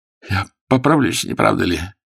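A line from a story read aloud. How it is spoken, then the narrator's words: Wounded man's weak question. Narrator (Russian): спросил раненый слабым голосом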